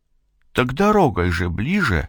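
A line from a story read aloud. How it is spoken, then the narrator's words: Confused reply. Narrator (Russian): растерянно отмолвила Зинаида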